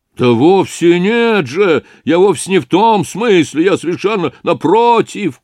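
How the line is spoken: Upset shouting. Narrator (Russian): кричал огорченный Разумихин

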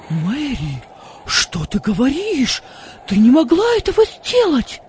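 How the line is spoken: Frightened exclamation, father. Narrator (Russian): воскликнул отец с испугом

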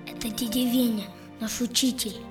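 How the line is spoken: Whispered. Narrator (Russian): шепнул Юра

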